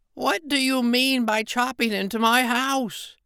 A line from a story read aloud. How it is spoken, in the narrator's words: he cried